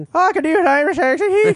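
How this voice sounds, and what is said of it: Put-on Irish accent. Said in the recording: “can you do a good Irish accent ... We just lost all our Irish listeners because of that.”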